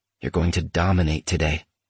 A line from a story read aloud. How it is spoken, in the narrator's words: He whispered into my right ear